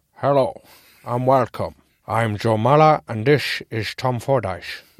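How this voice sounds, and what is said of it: Put-on Dutch accent. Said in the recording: “I am putting on this Dutch accent”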